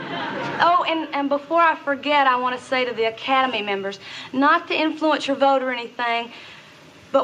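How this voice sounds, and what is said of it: Southern accent. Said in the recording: “You can hear her, Southern accent come out”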